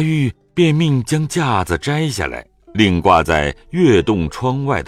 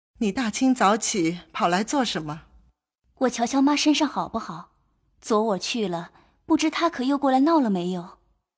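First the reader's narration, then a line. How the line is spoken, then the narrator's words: Crying. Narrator (Chinese): 由不得哭将起来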